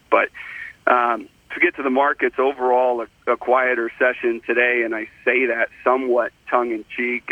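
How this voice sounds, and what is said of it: Raspy, hoarse voice from illness. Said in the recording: “a bit of a frog in my throat today ... we're all sick ... sounding a bit raspy today”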